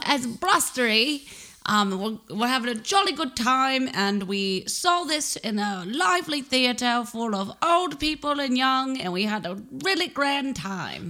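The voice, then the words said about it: Put-on British accent. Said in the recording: “I'm pretty sure you just slipped into Sharon Osbourne.”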